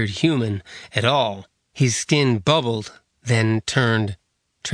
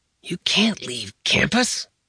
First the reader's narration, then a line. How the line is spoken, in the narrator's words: Caleb hissed